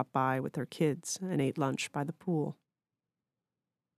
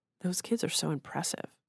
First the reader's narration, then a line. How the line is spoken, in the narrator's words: Sara murmured